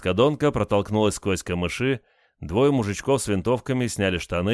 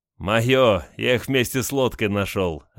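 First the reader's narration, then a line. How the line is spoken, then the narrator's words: Laughing. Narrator (Russian): рассмеялся Олег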